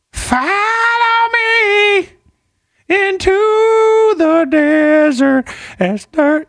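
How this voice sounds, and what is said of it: Sung imitation of another singer's voice. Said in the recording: “a good Chris Cornell impression”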